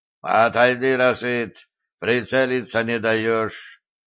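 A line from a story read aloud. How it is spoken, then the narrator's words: Strange mumbling request. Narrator (Russian): попросил сапер, как-то странно шамкая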